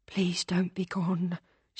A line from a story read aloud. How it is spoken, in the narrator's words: whispered under her breath